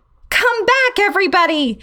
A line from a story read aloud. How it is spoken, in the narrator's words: I yelled to the rest of the class